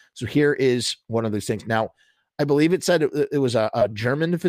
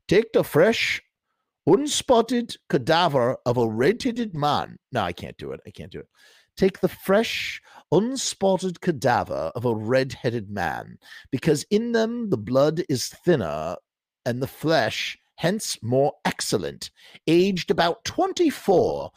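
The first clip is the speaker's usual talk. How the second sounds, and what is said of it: Put-on English accent. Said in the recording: “instead of reading it in a German accent, I'm going to do it in an English one”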